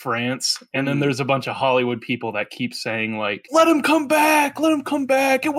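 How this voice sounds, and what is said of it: Usual voice. Nothing is said of it.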